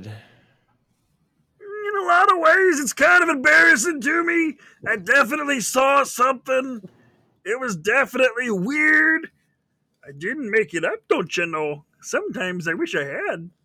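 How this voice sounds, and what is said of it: Upper Peninsula accent, Bobcat Goldthwait-like. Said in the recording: “The Dover Upper Peninsula accent... Bobcat Goldthwait mixed in there a little bit.”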